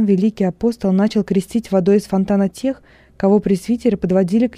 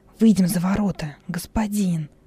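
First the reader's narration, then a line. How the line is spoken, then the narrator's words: Whispered. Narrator (Russian): шепнул Хилон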